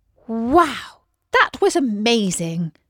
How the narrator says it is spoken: exclaimed Isis

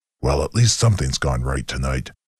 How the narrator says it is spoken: he grumbled

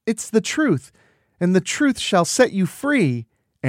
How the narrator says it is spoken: Anna exclaims

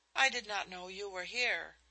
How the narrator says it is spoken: she exclaimed in half-frightened amazement

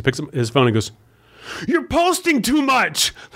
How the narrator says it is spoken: Like screamed it

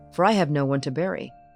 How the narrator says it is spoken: said Eustace sharply

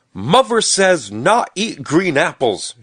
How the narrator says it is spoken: shouted Stubby

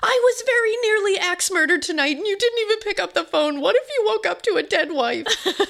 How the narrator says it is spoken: yelling

